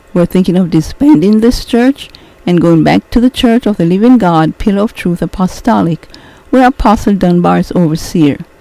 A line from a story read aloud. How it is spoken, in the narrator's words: Coralie piped in